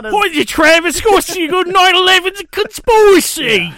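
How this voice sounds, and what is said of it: Put-on Cockney British accent. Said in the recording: “If it's Cockney ... He's not Cockney, though.”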